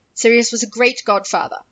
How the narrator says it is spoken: Harry said sharply

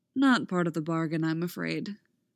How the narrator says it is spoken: Dooku says

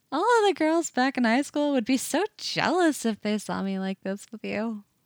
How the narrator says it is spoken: says, still laughing a little

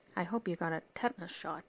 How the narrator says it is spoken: Daphne muttered

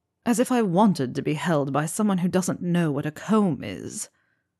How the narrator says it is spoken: Draco had grumbled

